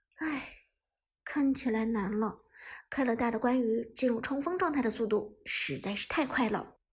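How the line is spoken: Sighing. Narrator (Chinese): 小冷叹息道

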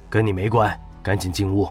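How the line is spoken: Cold command. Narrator (Chinese): 萧鹏冷声吩咐道

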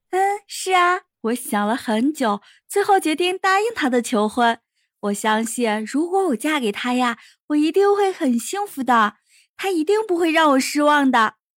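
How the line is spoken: Shy, quiet, smiling. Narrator (Chinese): 田菊羞涩的笑了，她小声的说

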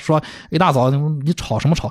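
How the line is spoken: Plain. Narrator (Chinese): 秋叶他说了一番话

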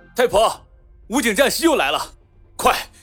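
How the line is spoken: Loud shout. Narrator (Chinese): 路边执勤的民警大声喊了起来

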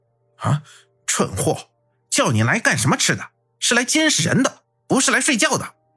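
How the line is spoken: Mildly angry. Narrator (Chinese): 洛尘微微怒道

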